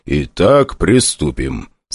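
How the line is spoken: Calm. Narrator (Russian): спокойно, не обращая внимания на вопли главврача, проговорил главный среди вояк

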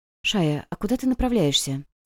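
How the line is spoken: Quiet question. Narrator (Russian): спросила Вивин тихонько

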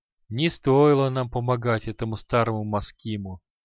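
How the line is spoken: Sighing. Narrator (Russian): вздохнул Шамшудин

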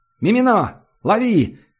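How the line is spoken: Shouted. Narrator (Russian): крикнули ему

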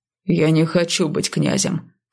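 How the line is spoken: Grumbling. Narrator (Russian): проворчал Онгер

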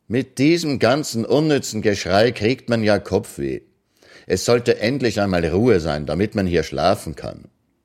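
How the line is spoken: Loud but not shouting. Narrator (German): Ekianga, ohne zu rufen, sagte nur laut, aber so, dass man es fünf Hütten weit hören konnte

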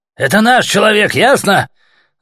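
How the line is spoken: Yelling. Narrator (Russian): Заорал он

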